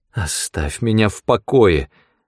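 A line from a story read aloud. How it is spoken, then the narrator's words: Pleading, female. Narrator (Russian): взмолилась она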